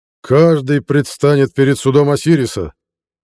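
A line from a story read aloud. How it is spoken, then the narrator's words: Shout. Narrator (Russian): крикнул кипхут на лошади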